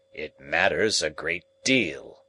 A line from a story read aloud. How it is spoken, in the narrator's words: said Challenger gruffly